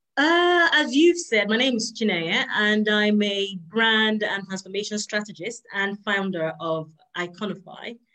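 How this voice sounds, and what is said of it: Non-American, British-sounding accent. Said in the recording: “I heard the accent. I couldn't place it, but I'm like, she's not in America.”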